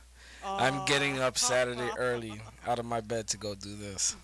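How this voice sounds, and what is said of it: Sarcastic, unenthusiastic flat tone. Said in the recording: “Can you hear the excitement in my voice? ... Do you hear the excitement in my voice?”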